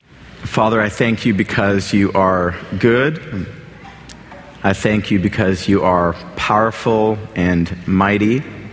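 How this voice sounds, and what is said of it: Weak, tired voice. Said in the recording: “my voice is feeling rather weak”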